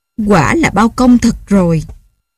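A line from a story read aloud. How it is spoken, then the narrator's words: Old woman, joyful cry. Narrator (Vietnamese): Bà lão run rẩy, mừng rỡ la lên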